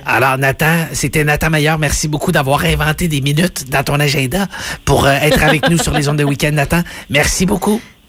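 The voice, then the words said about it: Imitates another person's voice. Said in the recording (French): “imitation de Patrice Bélanger”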